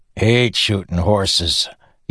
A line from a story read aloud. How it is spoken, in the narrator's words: Yennen grumbled